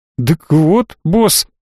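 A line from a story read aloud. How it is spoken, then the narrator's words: Frightened bleating. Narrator (Russian): испуганно проблеял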